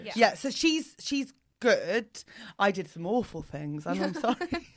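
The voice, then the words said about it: English accent. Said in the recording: “Your accent is... not... English”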